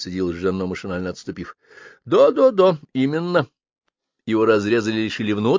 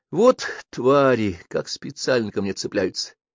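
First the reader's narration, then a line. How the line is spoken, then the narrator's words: Through gritted teeth. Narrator (Russian): процедил Жано сквозь ряд ровных зубов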